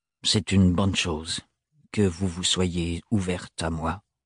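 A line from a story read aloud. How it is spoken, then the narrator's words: Gruff tone. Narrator (French): dit-il d'un ton bourru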